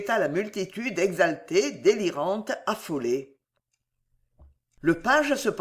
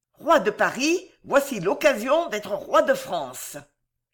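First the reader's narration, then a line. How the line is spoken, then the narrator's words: Vibrant voice. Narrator (French): cette voix vibrante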